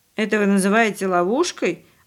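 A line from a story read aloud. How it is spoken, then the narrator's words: Snorted. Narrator (Russian): опять фыркнул Павлик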